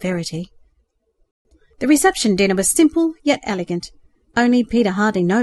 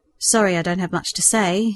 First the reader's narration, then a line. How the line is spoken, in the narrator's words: he mumbled